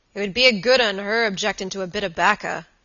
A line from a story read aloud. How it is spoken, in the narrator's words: growled Mr